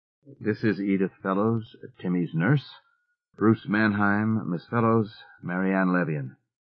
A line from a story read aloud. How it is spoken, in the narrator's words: He said in a low, uneasy tone